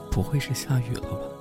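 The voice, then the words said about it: Soft, quiet muttering. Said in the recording (Chinese): “小声的念叨着”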